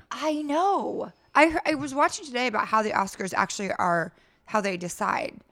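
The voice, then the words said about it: Strained, failing voice. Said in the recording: “my voice is just going”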